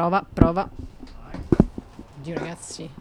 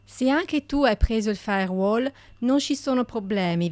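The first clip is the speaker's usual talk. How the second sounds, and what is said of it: Fake French accent in Italian. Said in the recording (Italian): “accento francese se volete ... accento francese!”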